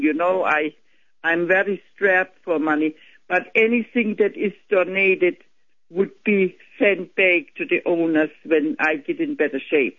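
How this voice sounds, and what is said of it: Slight German accent. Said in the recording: “you have a bit of an accent ... You were from Germany. ... Germany, in Bavaria.”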